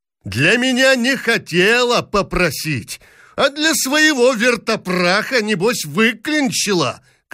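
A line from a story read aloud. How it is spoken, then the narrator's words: Angry shouting. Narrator (Russian): кричала княгиня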